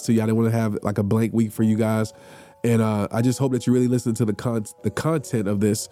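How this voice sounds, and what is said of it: Strained, fading sick voice. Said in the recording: “I'm losing my voice. ... I'm sick.”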